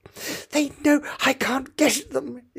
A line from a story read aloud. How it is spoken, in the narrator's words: it panted